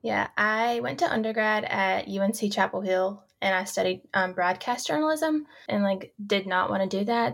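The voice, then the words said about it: North Carolina accent. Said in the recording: “I'm from North Carolina, but you can probably hear my accent.”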